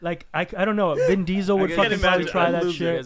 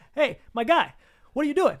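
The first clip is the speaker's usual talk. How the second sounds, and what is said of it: Put-on Boston accent. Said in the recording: “with a Boston accent”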